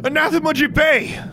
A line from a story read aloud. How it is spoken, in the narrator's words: Alexandra shouted